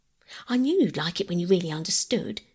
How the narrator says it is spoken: said Phyllis brightly

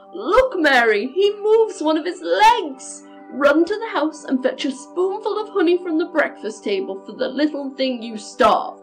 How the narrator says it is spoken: exclaimed

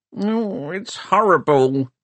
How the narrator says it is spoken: he grumbled

